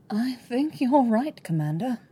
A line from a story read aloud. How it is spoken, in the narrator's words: her voice sounds watered down